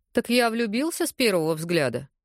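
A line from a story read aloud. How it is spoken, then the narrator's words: Amused snort. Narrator (Russian): хмыкнул Лука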